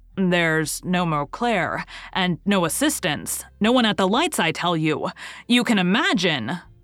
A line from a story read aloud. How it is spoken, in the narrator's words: roared the stage manager